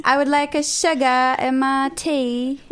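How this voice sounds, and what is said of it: Put-on British accent. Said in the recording (French): “Ça, c'était mon, euh, ... accent british”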